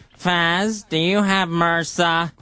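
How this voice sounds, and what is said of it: Imitates another person's voice. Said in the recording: “That's a great impression of him ... Oh, that's perfect.”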